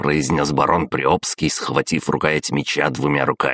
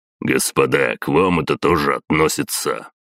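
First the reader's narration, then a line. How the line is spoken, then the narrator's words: Deep bass voice. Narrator (Russian): пробасил майор Ильин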